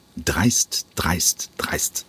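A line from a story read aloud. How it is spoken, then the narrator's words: Muttering while walking. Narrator (German): murmelte der Intendant im Gehen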